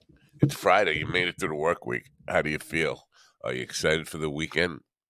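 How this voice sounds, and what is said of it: Mellow, sleepy, low-energy voice. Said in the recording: “you can hear it in my voice. Listen, I'm so mellow. You hear how mellow I am? I'm like, man, I'm barely awake.”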